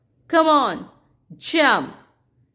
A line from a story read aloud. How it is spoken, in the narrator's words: the clown shouted